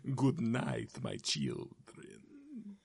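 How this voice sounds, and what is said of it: Dracula impression voice. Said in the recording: “Doing a Dracula voice today.”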